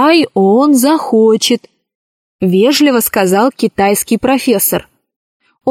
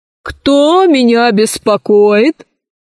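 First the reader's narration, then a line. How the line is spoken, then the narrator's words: Menacing voice. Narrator (Russian): спросил лже-директор грозным голосом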